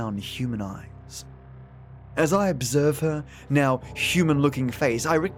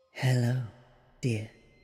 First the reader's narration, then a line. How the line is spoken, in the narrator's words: she says in a calm and relaxed tone